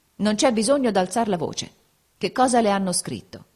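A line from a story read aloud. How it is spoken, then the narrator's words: Cold and calm. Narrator (Italian): egli rispose, freddo e calmo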